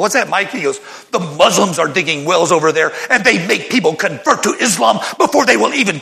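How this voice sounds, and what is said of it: Usual voice. Nothing is said of it.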